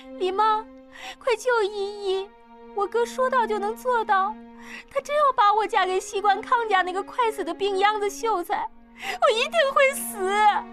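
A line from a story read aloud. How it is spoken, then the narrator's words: Tearful pleading. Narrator (Chinese): 依依…哭求道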